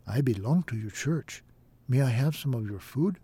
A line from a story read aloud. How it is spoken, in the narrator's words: One man whispered